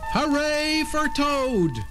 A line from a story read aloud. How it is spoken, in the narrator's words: Frog looked smaller as he shouted